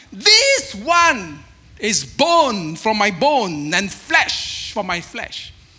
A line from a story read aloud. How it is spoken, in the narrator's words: The man exclaimed